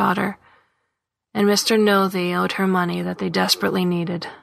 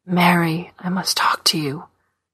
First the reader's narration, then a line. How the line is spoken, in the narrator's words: he said to her mother, whispering